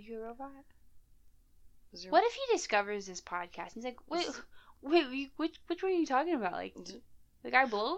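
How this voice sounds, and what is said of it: Tired, sleepy, not chipper voice. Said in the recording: “I'm very tired. You can probably hear it in my voice. ... I probably don't sound as chipper right now. That's just because I'm super sleepy.”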